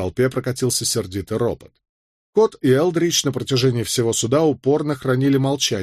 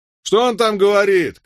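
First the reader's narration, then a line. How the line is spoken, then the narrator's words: Shouted. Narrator (Russian): крикнул Мелвилл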